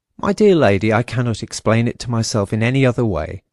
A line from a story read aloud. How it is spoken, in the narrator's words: said the manager